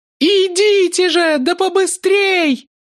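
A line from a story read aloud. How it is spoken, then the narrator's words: Mocking, fake sweetness. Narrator (Russian): Глумясь, воскликнула она притворно ласковым голосом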